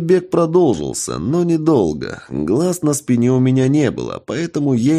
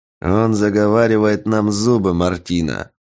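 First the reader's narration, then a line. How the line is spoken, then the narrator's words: Grumbled. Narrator (Russian): пробурчал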